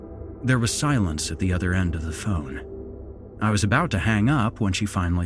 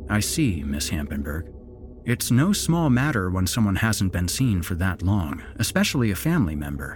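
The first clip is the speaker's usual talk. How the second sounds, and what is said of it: Sympathetic, gentle voice. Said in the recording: “put on my best sympathetic voice.”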